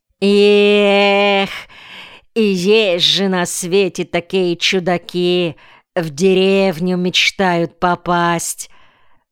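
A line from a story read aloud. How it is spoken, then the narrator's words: Mocking drawl, elderly woman. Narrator (Russian): насмешливо протянула пожилая женщина, уборщица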